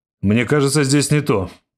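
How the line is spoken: Excited shout. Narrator (Russian): возбужденно крикнул Торлик

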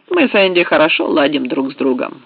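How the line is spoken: Plain. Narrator (Russian): сказал Меткалф

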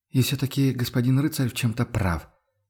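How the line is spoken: Quiet speech. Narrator (Russian): тихо выговорила Мария Дишер

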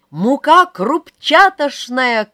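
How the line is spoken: Shouting. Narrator (Russian): кричала в лицо Клаши Ульяна

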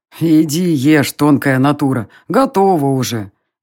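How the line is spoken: Good-natured grumble. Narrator (Russian): Беззлобно проворчал оборотень

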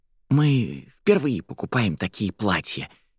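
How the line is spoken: Quiet. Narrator (Russian): тихо отозвалась Фелла

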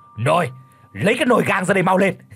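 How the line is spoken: Barked command. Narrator (Vietnamese): Lão Hành quát

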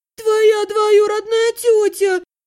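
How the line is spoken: Collapsing moan. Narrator (Russian): простонала я, оседая на пол под дверями

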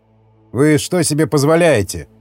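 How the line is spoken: Sudden snapping retort. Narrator (Russian): огрызнулся вдруг Андреич

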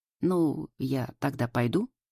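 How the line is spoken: Uncertain question. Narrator (Russian): неуверенно спрашивает Паша

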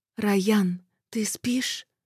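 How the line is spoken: Whisper. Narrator (Russian): прошептала я

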